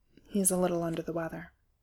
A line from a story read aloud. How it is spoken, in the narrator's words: Reese muttered back